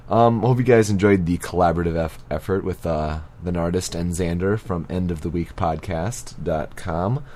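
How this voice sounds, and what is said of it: Voice affected by illness. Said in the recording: “I was definitely sick for this episode, and my voice is still even feeling it.”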